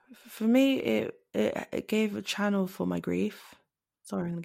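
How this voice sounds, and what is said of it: Usual voice. Nothing is said of it.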